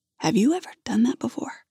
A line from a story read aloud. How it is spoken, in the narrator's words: Quietly, he asks